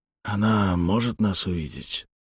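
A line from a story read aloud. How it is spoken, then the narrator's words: Whisper. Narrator (Russian): прошептал Малькольм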